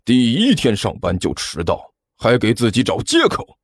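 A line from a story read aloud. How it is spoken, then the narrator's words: Angry, stern. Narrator (Chinese): 教导主任看起来异常的愤怒，对着关小雨很严肃的说道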